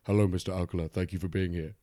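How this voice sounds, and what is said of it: Deeper than normal voice. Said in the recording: “asking himself questions in a deeper than normal voice”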